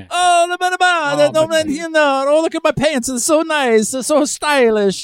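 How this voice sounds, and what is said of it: Put-on Milanese Italian accent. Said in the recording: “Do it again with the Milan accent.”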